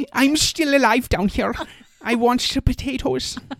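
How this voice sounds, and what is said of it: Put-on Scandinavian accent. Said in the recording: “That's my Scandinavian ... Accent ... That's perfect.”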